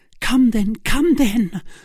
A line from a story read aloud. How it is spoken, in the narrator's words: cried Milady